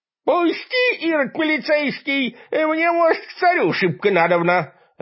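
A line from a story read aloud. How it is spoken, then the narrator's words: Shrill voice behind doors. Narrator (Russian): раздался за дверями визгливый голос дьяк Филимона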